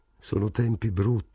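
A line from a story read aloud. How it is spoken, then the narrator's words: Murmured. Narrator (Italian): mormorò Morris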